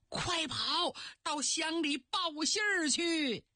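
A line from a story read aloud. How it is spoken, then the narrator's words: Urgent shout. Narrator (Chinese): 孙乡长冲着儿子孙真喊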